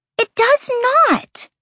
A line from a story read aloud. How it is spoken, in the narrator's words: Lahaba whined